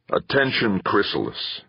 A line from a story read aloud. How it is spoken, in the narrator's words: he said in a heavy, guttural voice